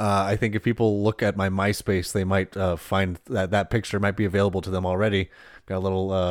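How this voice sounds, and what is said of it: Usual voice. Nothing is said of it.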